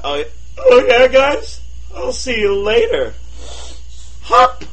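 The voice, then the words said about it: Exaggerated cool, casual voice. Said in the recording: “in my coolest voice”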